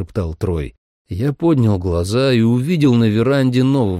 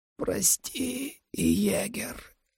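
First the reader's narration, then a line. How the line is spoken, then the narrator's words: Whisper. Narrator (Russian): прошептала Сьюзен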